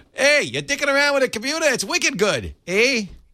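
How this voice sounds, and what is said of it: Put-on Boston accent. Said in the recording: “if you were in Boston ... I don't know what that accent is”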